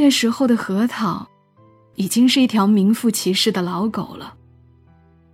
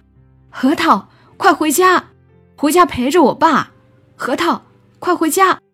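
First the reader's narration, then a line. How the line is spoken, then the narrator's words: Calling out. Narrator (Chinese): 小月姐朝后面喊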